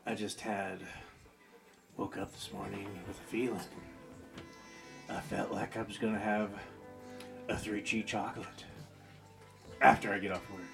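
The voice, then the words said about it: Sultry, soft bedtime voice. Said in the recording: “I'll switch from my radio voice to my nice, sultry ... bedtime voice.”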